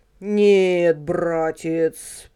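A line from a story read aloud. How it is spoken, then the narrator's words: Grumble. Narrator (Russian): проворчал дядя Федя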